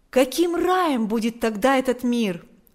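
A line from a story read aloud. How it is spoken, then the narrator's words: Exclaimed. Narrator (Russian): Павел, обращаясь к ближним в церкви княжей, воскликнул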